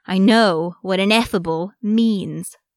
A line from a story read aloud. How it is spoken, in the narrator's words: Arcadius growled